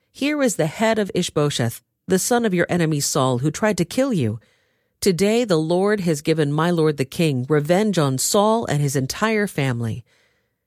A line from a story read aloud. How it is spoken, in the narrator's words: they exclaimed to the king